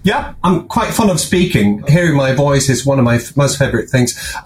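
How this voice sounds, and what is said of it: Swede with Monty Python-style English accent. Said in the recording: “I was expecting something different with your voice... explain to me then why you sound like that... it's Monty Python... you had to have the accent down”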